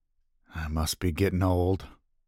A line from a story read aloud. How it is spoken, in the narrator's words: mumbled